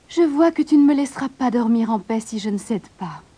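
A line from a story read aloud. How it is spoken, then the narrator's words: Sighing princess. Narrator (French): soupira la princesse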